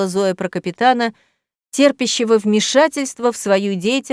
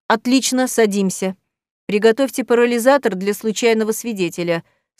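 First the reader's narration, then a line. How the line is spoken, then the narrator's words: Dry command. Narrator (Russian): сухо отдал команду Рамул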